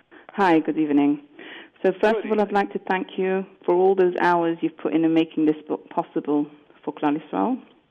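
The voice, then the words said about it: English accent, from England. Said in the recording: “sounds like, based on your accent, that you're talking about getting it in England”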